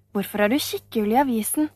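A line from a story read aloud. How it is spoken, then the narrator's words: Plain question. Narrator (Norwegian): spurte Oliver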